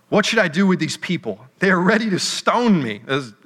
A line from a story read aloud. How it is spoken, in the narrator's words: Moses cried out to the Lord